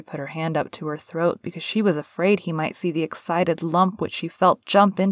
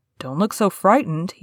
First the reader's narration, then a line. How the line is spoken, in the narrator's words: he said in a worried voice